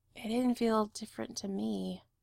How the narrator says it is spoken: he says softly

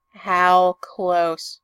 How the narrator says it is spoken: He sighs

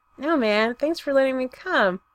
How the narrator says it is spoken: Droid manages

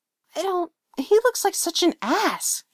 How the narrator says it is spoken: she hisses in Lydia's ear

